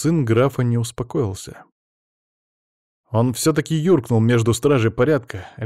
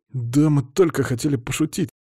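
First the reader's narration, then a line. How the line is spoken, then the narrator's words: Forced out, strained. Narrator (Russian): выдавил низкорослый парень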